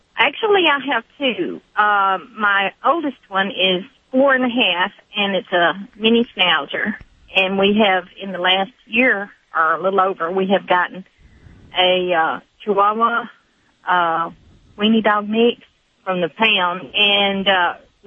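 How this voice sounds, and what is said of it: Southern American accent. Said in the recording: “You must be like calling from the South somewhere. ... those Southern accents ... Well, I do have one, I guess.”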